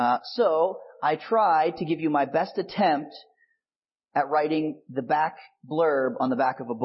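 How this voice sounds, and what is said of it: Usual voice. Nothing is said of it.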